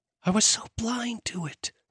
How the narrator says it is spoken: she whispered

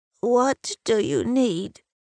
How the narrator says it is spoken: She says in a crackly voice

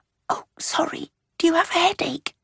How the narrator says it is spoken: stage-whispered

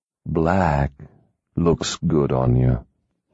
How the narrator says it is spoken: he murmured

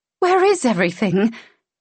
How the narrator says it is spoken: She giggled, the sound high and unsettling and panicked

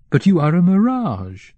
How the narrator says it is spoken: Kovrin exclaimed

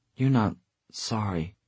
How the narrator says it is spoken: she said hesitantly

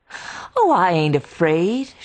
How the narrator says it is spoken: she laughed

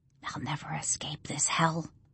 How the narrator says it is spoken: she whispers

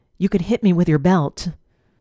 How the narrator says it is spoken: I took a deep breath and blurted out

